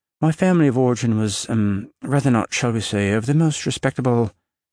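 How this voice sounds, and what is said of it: Put-on British accent. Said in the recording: “speaking to them in a British accent.”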